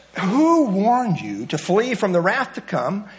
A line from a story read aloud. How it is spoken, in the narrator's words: he is speaking very sarcastically